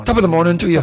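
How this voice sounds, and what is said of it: Put-on Irish accent. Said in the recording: “Do your Irish accent.”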